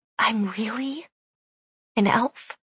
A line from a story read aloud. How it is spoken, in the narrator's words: She whispered